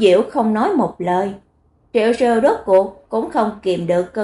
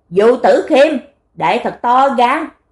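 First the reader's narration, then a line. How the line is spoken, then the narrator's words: Breathless shout. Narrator (Vietnamese): Đệ Triệu Siêu hổn hển quát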